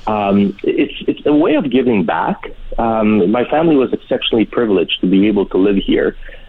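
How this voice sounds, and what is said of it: Polish accent in English. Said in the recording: “I wasn't born here, as your listeners can probably tell by still by my accent, even though I'm in Canada for over 40 years... we came from a communist Poland”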